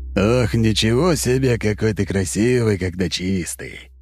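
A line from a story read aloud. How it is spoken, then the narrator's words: Open laughter. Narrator (Russian): Кряж откровенно смеялся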